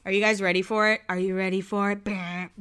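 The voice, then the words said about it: Imitates another person's voice. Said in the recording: “my Taylor Swift impression.”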